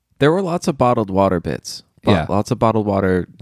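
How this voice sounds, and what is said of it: Usual voice. Nothing is said of it.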